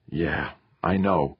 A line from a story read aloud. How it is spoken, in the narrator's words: Theo sighed